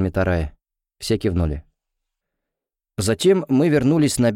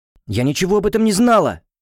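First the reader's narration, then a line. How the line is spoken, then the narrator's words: Exclaiming. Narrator (Russian): воскликнула Леона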